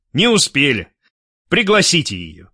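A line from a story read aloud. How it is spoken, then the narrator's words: Commanding voice. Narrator (Russian): командным голосом сказал Гуров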